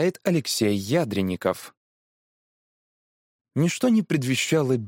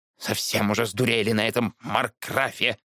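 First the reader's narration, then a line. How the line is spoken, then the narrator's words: Grumbling elderly woman. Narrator (Russian): пробурчала пенсионерка Нина Глебовна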